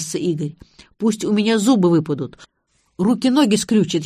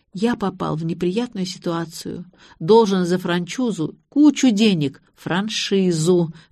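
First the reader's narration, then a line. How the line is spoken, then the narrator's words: Sighed. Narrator (Russian): вздохнула я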